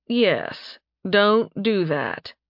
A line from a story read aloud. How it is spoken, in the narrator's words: he said dryly